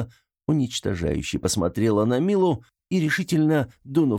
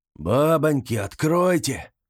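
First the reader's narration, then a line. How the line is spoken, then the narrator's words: Hoarse voice behind door. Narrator (Russian): раздался хриплый голос за дверью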